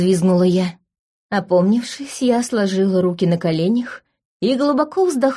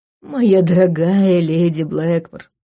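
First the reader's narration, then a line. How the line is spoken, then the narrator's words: Tired. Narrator (Russian): начал устало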